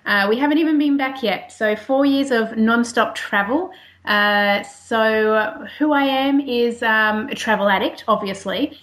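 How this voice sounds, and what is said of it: Australian accent. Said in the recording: “as you can tell by the accent, I am an Australian.”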